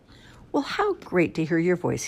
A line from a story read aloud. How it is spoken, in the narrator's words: he sighed